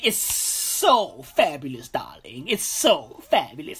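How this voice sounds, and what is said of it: Put-on flamboyant character voice. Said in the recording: “doing that voice”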